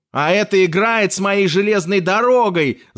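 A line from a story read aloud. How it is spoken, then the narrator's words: Yelling. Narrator (Russian): заорал Филипп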